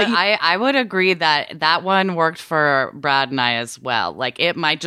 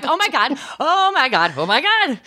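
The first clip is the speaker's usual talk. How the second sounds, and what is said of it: Shrieking imitation of another person. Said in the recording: “her sh- shrieking ... that was a perfect imitation”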